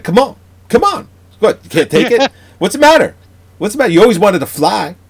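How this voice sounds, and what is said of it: Put-on New York accent. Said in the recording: “you could hear that New York metropolis accent.”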